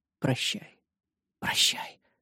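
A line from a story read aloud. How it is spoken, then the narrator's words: Whispered. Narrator (Russian): прошептала мадам Пелажи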